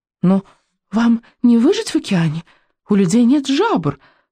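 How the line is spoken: Exclaimed. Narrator (Russian): воскликнула буремуха

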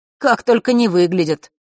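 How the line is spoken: Snort. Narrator (Russian): хмыкнул Ник

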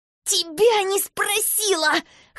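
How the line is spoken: Strained hoarse voice. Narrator (Russian): хриплю, стараясь вырваться

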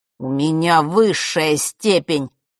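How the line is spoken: Through gritted teeth. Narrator (Russian): процедил Марк

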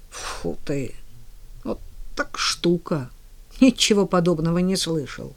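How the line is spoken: Quiet amazed exclamations. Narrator (Russian): Джерри Мерфи с широко раскрытыми от удивления глазами негромко восклицал время от времени

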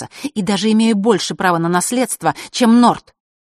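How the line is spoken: Angry. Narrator (Russian): зло сказала Василиса

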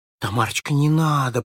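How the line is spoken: Whisper. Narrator (Russian): прошептала Белочка

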